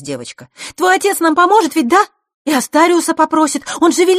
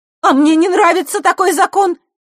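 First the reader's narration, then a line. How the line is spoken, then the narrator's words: Forceful shout. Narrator (Russian): силой выкрикнула Василиса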